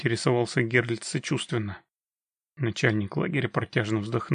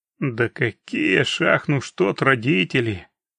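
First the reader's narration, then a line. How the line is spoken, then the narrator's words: Glum objection. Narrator (Russian): уныло возразил Феодор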